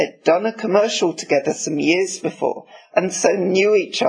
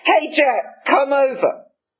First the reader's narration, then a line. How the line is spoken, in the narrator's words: Harrison yelled